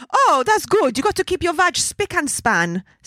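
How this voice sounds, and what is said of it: Exaggerated strong Italian accent. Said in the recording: “my dad has the strongest and most hilarious accent ... she is saying that as an ITAL”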